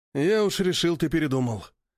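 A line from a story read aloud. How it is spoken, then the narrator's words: Sighing with smirk. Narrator (Russian): вздохнул с ухмылкой Валериан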